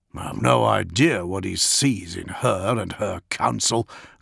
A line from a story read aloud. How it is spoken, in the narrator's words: growled Augustine